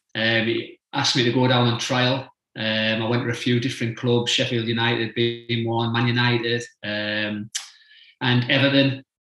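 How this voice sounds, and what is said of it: Northeast English accent. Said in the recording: “by your accent, you're from the northeast”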